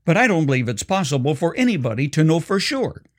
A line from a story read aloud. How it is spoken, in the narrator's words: quickly added